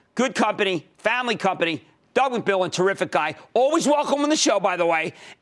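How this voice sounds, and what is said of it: Philadelphia accent. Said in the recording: “my Philadelphia accent”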